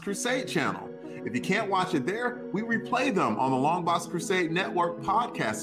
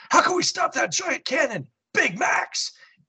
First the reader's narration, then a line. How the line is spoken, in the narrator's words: Gunner shouts